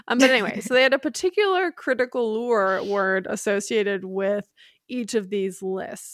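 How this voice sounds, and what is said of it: Midwestern American accent. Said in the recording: “My Midwest accent is fucking it up.”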